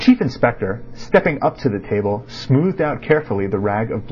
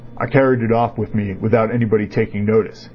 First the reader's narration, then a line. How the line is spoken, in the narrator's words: he said